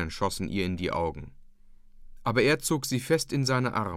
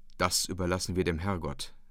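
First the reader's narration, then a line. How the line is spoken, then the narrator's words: Plain. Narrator (German): sagte er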